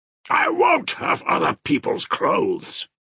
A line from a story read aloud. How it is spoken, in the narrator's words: he shouted menacingly